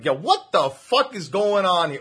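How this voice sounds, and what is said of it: Put-on Jersey accent. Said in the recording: “you don't sound like you have a Jersey accent. Can you do one? ... sounds like he's from Jersey. Harder. ... when I get angry, it really comes out.”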